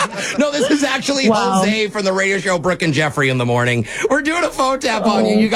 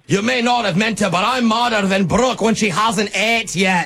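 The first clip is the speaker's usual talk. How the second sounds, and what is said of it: Thick fake accent. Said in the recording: “in thick accents ... this is not a real accent”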